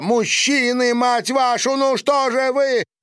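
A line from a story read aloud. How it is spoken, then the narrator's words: Shouting. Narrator (Russian): закричала Маша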